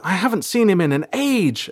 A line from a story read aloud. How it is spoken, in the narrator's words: April said happily